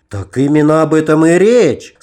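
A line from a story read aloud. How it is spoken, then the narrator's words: Enthusiastic exclamation. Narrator (Russian): с энтузиазмом воскликнул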